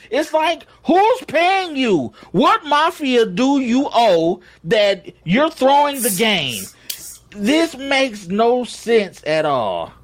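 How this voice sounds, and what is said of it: Yelling, agitated. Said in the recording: “I'm yelling. I need to calm down”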